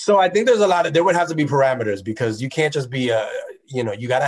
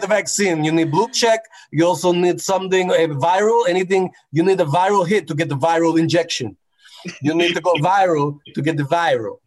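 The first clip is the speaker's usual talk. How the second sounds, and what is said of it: Put-on Russian Indonesian accent. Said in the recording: “This isn't me talking. It's the Russian Indonesian person. ... Indonesian accent.”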